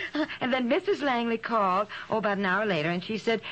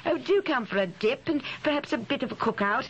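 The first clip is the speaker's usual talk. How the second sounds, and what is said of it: Weak put-on English accent. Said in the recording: “If she has an accent like that, she is certainly not American or anything else. You're not good at accents, honey.”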